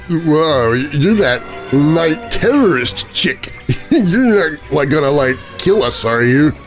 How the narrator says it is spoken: Through slurred words, one of them says

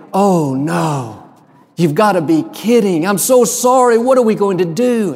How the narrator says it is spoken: She said so dramatically

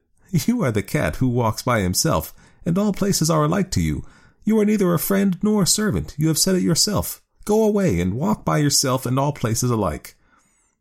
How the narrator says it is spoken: the woman laughed and said

